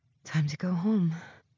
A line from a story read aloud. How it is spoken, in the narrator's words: I whisper to myself